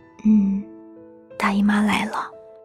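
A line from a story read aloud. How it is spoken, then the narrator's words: Soft voice. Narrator (Chinese): 女孩轻声地说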